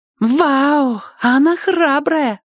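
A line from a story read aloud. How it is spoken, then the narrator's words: Child's squeak. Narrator (Russian): пискнул один из малышей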